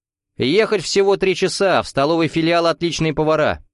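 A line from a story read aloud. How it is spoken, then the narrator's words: Shouted from hallway. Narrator (Russian): крикнул из прихожей Зарубин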